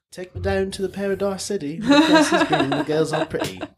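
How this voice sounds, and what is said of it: Sung attempt at New Zealand accent. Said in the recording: “You gotta do that in like a New Zealand accent ... That was more British at the end.”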